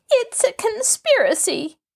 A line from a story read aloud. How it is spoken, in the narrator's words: Ada cried bitterly